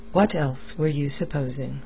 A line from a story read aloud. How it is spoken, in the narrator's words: Blood asked the question wearily, his mind on other things